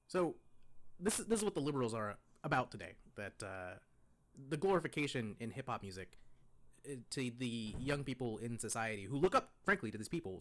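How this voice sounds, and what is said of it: Condescending deadpan imitation of another person. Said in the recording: “your best Ben Shapiro impression condescension voice ... I've never been a good Shapiro impersonator ... read lyrics, like, deadpan ... judging them condescendingly”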